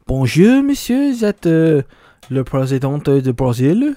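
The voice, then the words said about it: Mock French accent impression. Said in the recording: “I'm going to say Emmanuel Macron... Macron's probably like, hello?... You have to do an accent”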